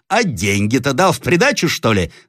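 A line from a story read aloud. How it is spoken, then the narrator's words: Shouting. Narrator (Russian): закричал Ерема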